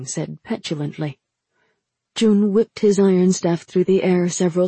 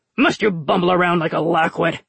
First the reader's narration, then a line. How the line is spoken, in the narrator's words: Jun snapped